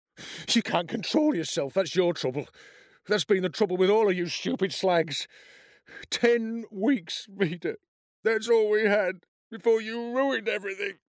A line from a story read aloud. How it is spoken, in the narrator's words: he sobbed